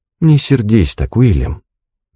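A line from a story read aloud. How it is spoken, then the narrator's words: Soft. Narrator (Russian): мягко произнесла она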